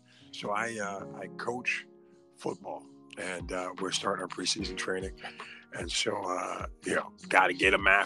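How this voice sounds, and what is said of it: Hoarse, strained voice. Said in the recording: “excuse my voice this morning ... my voice is shot”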